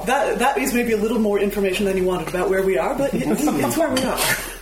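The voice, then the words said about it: Slight American accent. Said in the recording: “We can hear the little American accent. ... I do still have an American accent.”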